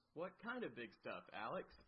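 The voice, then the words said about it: Exaggerated radio announcer voice. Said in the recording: “Your radio voice is killing me.”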